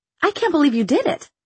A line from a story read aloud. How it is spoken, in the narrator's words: she exclaimed